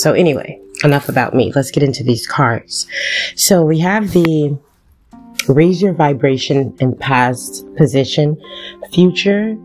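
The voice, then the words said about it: Slightly raspy voice. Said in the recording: “I apologize if I am a little raspy. I think I am a little bit”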